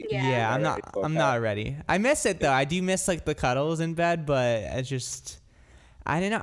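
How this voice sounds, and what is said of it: Irish accent. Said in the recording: “you do such a good Irish accent ... I'm Irish ... Wasn't that good of an accent, though.”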